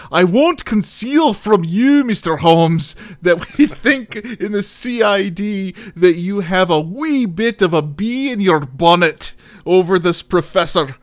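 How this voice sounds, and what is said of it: Put-on Scottish accent. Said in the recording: “do the Scotty voice? ... Why are you reading this like it's like The Simpsons”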